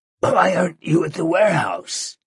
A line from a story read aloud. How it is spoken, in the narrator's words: He croaked